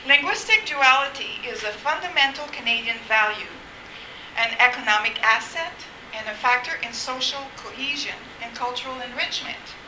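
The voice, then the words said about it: Noticeably accented English. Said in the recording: “my accent is usually deterrent”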